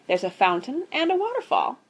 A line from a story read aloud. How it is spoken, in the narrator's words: continued Daisy happily